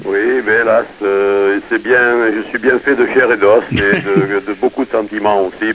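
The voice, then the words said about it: Provençal regional French accent. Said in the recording (French): “elle a un accent de Provence ... Elle a l'accent du terroir”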